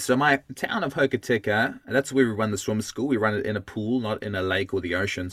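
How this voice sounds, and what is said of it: South African accent. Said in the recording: “as you can hear from my voice, this is not the Kiwi accent that you'd expect. It's I'm South African originally”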